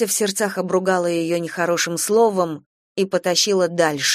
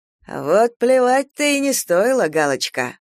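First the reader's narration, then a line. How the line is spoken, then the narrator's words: Chuckling. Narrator (Russian): хохотнул дубовик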